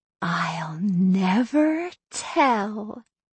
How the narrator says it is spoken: she whispered

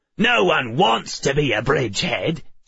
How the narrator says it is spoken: snapped the left

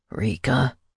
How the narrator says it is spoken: he whispered, sounding desperate

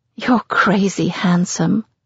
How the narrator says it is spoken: I say wistfully

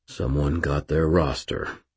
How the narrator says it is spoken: Daniel said, his voice harsh

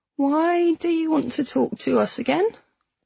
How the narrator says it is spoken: he asked, his voice rising with a sharp squeak

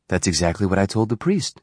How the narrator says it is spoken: she replied

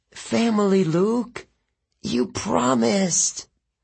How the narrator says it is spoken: She croaked

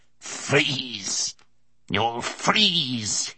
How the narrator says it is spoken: he spat out at him

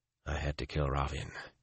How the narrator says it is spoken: he said quietly

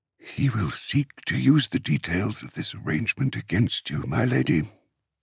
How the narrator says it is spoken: Enzal said into her ear, his voice pitched so low that even her Kabbalite warriors would not hear him

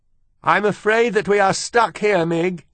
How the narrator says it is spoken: shouted the princess

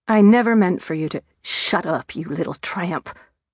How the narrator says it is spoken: she spat

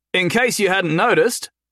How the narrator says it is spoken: Jason called out to him

